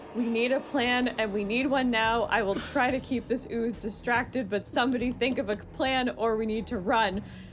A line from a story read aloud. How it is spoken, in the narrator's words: yells to the group